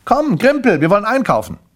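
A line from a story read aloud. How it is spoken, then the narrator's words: Mother calling out. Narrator (German): rief seine Mutter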